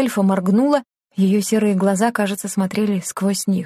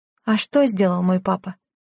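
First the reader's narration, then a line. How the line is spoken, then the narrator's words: Deep sigh, question. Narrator (Russian): Лена глубоко вздохнула и спросила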